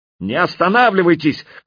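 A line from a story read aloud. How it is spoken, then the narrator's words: Shout. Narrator (Russian): крикнул я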